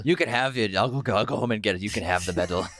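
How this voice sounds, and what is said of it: Imitates another person's voice. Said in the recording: “Great Stellan impression.”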